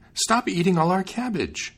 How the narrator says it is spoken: cried the maiden

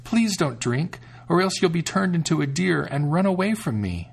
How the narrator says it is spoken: the sister exclaimed

